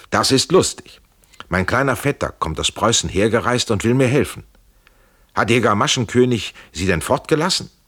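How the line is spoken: Calling out. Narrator (German): Er rief

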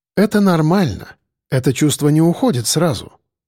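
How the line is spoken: Calm reply. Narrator (Russian): спокойно ответила Яна

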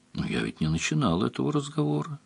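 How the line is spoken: Quiet. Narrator (Russian): тихо сказал Анрах

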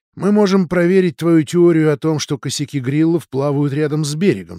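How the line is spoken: Plain. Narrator (Russian): сказала Бриджит

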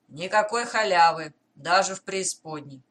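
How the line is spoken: Rough reply. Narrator (Russian): лодочник грубо отвечает

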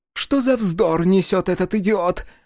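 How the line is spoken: Exclaim. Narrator (Russian): воскликнула Джиа

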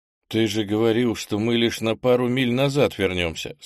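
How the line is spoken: Plain question. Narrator (Russian): спросил княжич

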